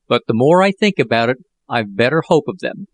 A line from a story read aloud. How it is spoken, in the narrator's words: continued Jack in a more cheerful tone